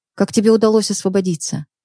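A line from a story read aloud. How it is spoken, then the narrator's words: Calm, restrained question. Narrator (Russian): она, стараясь сдержать свои эмоции, спокойно спросила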